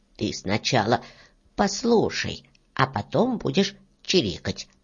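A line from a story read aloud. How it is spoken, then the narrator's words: Plain frog reply. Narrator (Russian): ответила лягушка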